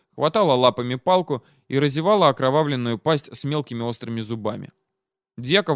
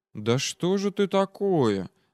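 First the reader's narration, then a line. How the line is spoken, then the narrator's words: Quiet question. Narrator (Russian): спросил тихо Петр Дьяков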